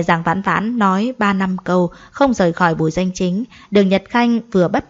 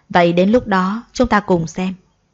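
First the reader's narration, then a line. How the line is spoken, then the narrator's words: Soft smiling speech. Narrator (Vietnamese): Đường Nhật Khanh mỉm cười khẽ nói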